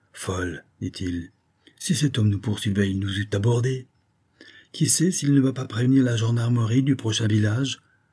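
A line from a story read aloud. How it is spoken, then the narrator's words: Murmured, baroness. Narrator (French): murmura la baronne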